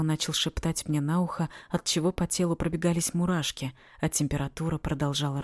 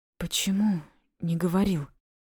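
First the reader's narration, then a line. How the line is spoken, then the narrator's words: Strained, forced out. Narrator (Russian): Сумела выдавить я из себя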